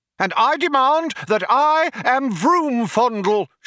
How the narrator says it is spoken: shouted the younger one

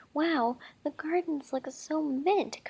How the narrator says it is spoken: Coca exclaimed

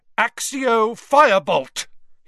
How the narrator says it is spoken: he shouted

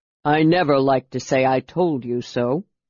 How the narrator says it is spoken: said Justarius grimly

